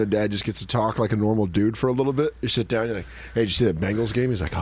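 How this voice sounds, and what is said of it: Usual voice. Nothing is said of it.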